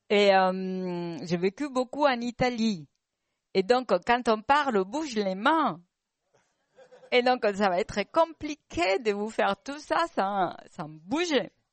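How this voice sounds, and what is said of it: Spanish accent speaking French. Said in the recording (French): “Vous l'entendez de mon accent. Je suis espagnole.”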